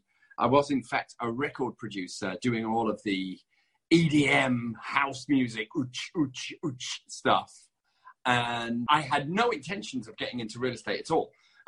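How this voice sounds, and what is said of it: Strong British accent. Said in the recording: “my very strong British accent”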